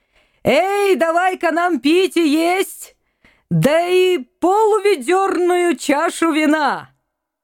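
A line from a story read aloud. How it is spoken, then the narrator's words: Shout. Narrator (Russian): Крикнул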